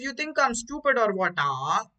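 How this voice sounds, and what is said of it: Put-on South Indian accent. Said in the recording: “that's my best impression of a South Indian guy”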